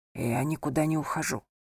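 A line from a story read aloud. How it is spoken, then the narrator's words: Whispered. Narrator (Russian): прошептал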